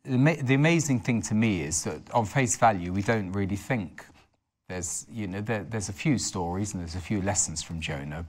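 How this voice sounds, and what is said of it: Hoarse, croaky voice. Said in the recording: “I've got a bit of a frog in my throat”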